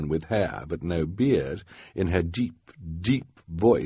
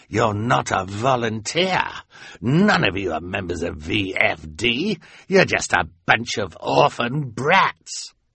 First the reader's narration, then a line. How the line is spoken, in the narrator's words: Count Olaf said with a sneer